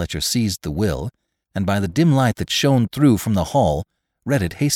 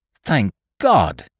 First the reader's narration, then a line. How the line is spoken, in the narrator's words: he cried